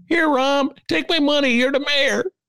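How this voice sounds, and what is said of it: Imitates an average Chicago resident. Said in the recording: “my imitation of an average Chicago D”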